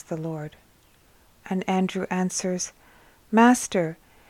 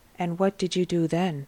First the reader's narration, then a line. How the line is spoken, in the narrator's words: asks the Lord